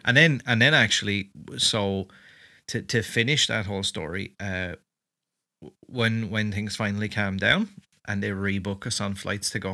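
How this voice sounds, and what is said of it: Irish accent. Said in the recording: “I'm trying to carb my Irish accent.”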